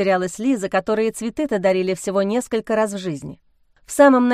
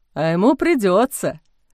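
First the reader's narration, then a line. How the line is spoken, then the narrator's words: Snort. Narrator (Russian): фыркнул отец Амвросий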